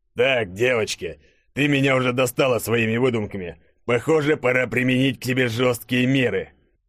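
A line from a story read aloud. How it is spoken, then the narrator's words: Barked. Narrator (Russian): Рявкнул Громов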